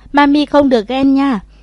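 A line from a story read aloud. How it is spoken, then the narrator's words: Cheerful. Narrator (Vietnamese): Thẩm Hà hớn hở xoay đầu nói với Thẩm Thất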